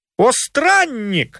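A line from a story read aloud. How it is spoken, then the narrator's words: Exclamation. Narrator (Russian): воскликнул Телемах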